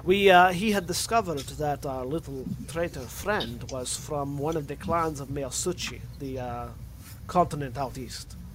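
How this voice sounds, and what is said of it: Scottish accent drifting into Russian. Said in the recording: “I don't know why I'm slowly getting into Russian accent ... I'm slowly going from Scottish to Russian ... stuck in Russian”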